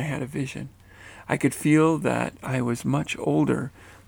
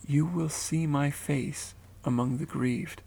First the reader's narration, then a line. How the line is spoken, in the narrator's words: quietly said